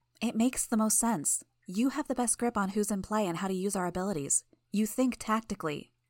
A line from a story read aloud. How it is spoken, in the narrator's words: murmured